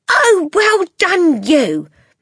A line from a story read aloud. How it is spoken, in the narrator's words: Matilda cried